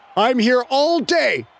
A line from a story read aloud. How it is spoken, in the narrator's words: Fay had shouted